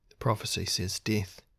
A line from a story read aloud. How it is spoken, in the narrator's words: he said softly